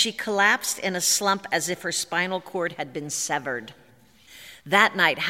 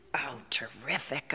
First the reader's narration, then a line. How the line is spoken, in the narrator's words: I whispered to Howard